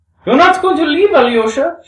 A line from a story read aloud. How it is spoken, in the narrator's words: she exclaimed in sorrowful amazement